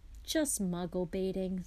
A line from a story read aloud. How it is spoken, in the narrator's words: sighed Mr